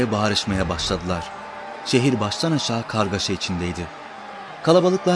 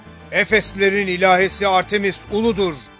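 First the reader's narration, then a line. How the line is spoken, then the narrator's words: Crowd shouting. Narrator (Turkish): diye bağırıştı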